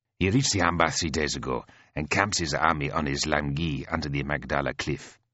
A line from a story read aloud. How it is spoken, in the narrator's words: says Fazel